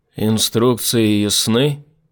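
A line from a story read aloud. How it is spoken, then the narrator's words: Loud. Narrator (Russian): произнес Rescue громко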